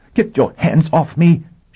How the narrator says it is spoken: she cried furiously

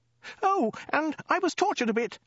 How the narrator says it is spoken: shrieked the woman

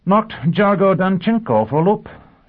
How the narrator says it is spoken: Sheffield reported triumphantly

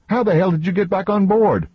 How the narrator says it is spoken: Roman yelped

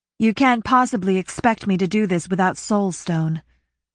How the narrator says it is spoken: Shay said dryly

